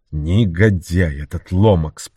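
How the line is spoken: Grumbling. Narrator (Russian): проворчал он

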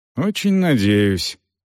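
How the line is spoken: Resigned sigh. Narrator (Russian): обреченно вздохнул Селдон

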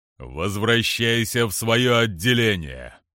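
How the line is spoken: General, booming voice. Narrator (Russian): прогремел генерал

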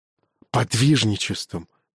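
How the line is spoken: Barely audible whisper. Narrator (Russian): едва слышный шепот

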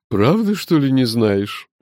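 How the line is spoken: Mocking question. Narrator (Russian): насмешливо спросила леди Хайста

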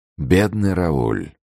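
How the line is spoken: Sighing. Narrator (Russian): вздохнул Атос

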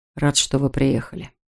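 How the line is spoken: Quiet. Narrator (Russian): тихо сказал он

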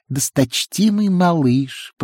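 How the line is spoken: High squeaky voice. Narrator (Russian): произнес он высоким писклявым голосом

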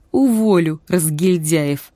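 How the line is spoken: Strained, shaking with laughter. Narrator (Russian): выдавил он, сотрясаясь от смеха

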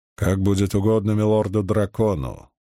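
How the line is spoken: Grumbling mutter. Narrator (Russian): буркнул Гедвин

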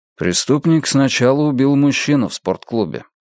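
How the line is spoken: Calm reply. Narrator (Russian): спокойно ответил Йона

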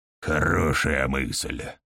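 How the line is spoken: Gloomy mutter. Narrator (Russian): мрачно буркнул Нилкан

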